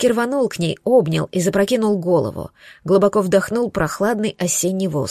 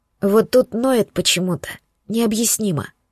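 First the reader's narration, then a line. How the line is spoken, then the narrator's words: Hoarse. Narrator (Russian): хрипло добавила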